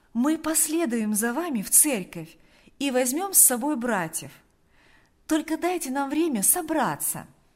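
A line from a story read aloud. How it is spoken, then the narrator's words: Kind, cheerful voice. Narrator (Russian): Она говорила добрым, жизнерадостным голосом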